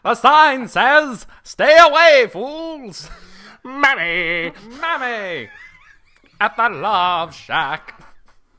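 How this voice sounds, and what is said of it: Imitates another person's singing voice. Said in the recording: “my Fred Schneider impression is a little too close to an Al Jolson impression”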